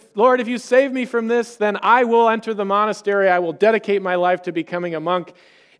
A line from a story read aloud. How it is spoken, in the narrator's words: He cried out to God and essentially said